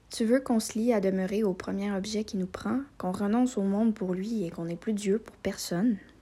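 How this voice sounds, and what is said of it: Quebec French accent. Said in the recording (French): “Accent québécois?”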